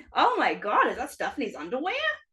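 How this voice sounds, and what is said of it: Impression of Lois Griffin. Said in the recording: “I love your Lois impression”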